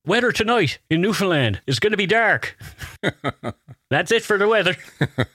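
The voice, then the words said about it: Put-on Newfoundland accent. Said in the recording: “I'm going to do a Newfie accent.”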